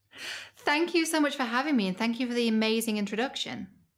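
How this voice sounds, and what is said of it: British accent. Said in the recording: “has a saucy British accent to boot ... saucy British accent.”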